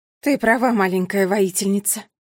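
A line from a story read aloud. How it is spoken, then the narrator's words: Sighing. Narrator (Russian): вздохнула королева Кникс и затем сказала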